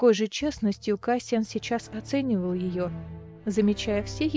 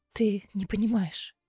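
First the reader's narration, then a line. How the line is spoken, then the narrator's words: Hoarse. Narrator (Russian): хрипло сказала Неста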